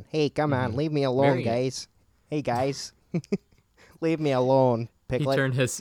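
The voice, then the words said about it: Grumpy cartoon rabbit character voice. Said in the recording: “my rabbit impression ... He turned Hasidic”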